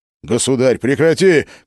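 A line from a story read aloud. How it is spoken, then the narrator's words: Shout. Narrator (Russian): крикнул Филипп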